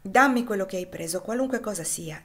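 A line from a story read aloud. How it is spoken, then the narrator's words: Firm voice. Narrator (Italian): disse Ofelia con voce ferma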